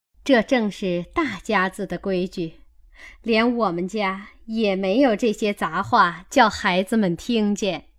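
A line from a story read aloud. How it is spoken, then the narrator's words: Two laughing voices. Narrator (Chinese): 李薛二人都笑说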